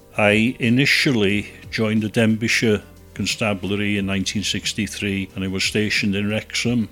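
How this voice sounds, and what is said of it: Welsh accent. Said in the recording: “He speaks in his fabulous Welsh accent.”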